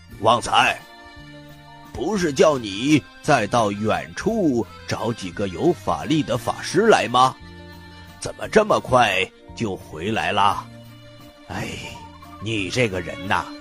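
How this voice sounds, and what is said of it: Aged, elderly-sounding voice. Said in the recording (Chinese): “一个苍老的声音说”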